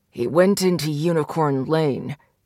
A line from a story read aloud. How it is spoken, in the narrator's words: Derek growled